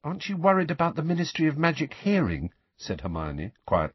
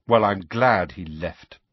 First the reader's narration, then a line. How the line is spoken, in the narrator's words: Harry said coldly